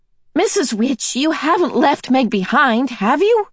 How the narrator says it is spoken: Charles Wallace shouted

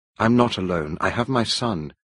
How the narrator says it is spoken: I said

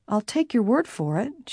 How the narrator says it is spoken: she said quietly

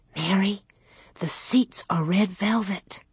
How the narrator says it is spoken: She whispered

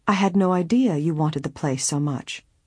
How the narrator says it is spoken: she said kindly

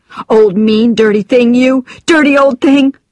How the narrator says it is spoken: I screamed

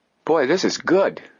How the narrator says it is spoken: Joe exclaimed

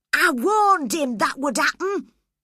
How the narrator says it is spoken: he cried

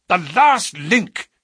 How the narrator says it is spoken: he cried exultantly

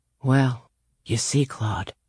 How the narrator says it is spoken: Jamie whispered

